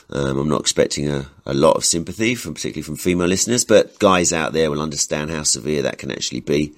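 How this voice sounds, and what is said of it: Sick, congested-sounding voice. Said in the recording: “As you can probably hear from my voice, the New Year's brought me a rather nasty strain of man flu.”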